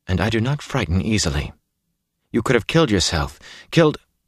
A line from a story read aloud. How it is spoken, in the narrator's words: she said in a tight voice